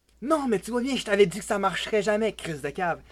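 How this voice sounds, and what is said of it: Québécois French accent. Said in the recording (French): “Je suis un de québécois, pas un français à la con... Ce charmant accent que vous venez d'entendre est celui de mon cher ami ... depuis le Québec.”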